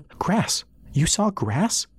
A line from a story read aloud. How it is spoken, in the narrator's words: she asked, excitedly